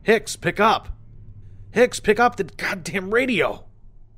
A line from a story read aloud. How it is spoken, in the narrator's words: Over and over, I called out on the radio